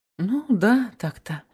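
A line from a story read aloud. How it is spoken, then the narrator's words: Uncertain young woman. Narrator (Russian): неуверенно отозвалась девушка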